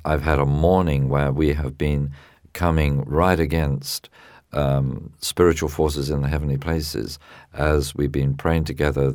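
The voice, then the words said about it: Thick, tired-sounding voice. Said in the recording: “a little thick today ... my voice sounds a little tired ... even if the voice sounds a bit tired”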